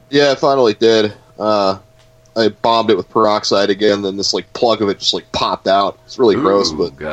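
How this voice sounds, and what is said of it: Rough, sick-sounding voice. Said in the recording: “my voice is a little screwy. I'm kind of sick right now ... You sound a little rough.”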